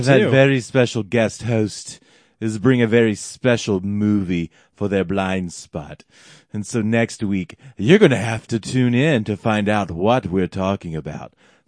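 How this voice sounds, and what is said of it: Playful put-on accent. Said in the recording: “you're doing a fun accent”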